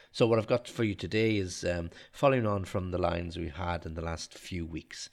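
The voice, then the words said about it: Slightly nasal, congested voice. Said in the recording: “if I sound a little bit nasally, a little bit of a nose problem ... I've got a little bit of a cold”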